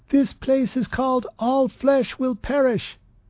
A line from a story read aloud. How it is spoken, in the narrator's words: Trep yelled above the noise